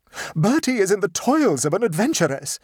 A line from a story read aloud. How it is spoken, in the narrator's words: she screamed